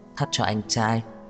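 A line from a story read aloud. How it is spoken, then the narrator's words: Soft laugh. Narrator (Vietnamese): Đường Khả Hinh cười khẽ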